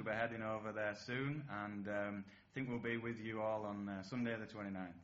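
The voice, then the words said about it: Broad Yorkshire accent. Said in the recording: “that broad Yorkshire accent”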